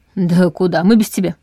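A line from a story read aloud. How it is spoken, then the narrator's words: Snorting chuckle. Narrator (Russian): хмыкнул Дементьев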